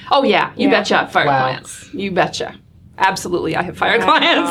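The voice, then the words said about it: Flat Midwestern accent, slight Australian. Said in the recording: “Midwestern flat ... Michigan by way of 10 years in Australia. So my accent's a little bit convoluted.”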